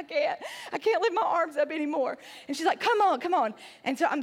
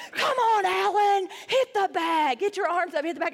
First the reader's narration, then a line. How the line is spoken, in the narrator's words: the woman's yelling at me